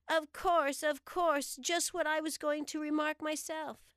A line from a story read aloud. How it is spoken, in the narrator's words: The Dormouse shook its head impatiently and said